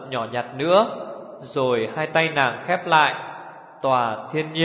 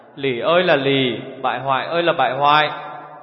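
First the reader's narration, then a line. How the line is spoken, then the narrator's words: Sighing. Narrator (Vietnamese): Tiểu Phi thở dài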